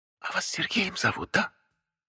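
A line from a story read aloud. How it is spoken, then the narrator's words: Whisper. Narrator (Russian): шепнули сбоку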